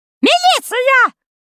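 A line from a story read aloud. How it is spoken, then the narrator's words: Woman shrieking. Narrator (Russian): завизжала тетенька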